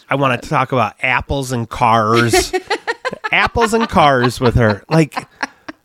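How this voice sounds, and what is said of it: Michigan accent, flat short A. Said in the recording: “a Michigan short A sound ... a harder R ... I have a really bad Michigan accent”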